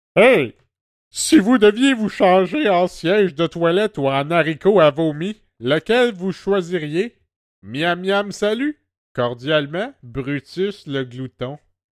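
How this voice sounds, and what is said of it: Silly put-on character voice. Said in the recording (French): “Je vais prendre une voix, parce qu'on est, on est comme ça nous autres, on est des petits fous.”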